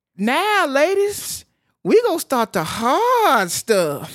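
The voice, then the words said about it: Imitates a movie character's voice. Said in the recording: “I did a terrible impression there”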